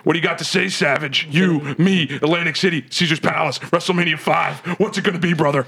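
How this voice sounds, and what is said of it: Hulk Hogan impression. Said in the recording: “it's Hulk running wild on your podcast, dude”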